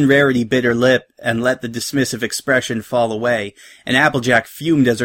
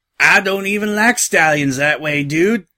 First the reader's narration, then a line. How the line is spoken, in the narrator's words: Rainbow grunted, her voice a gravelly imitation of Applejack's accent that cracked apart when she couldn't hold back another snigger